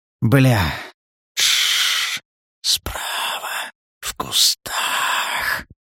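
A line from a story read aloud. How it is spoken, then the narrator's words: Snake-like hiss. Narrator (Russian): По-змеиному прошипел Макс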